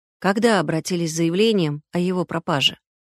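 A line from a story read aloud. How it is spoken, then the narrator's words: Weary question. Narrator (Russian): спросил Никита устало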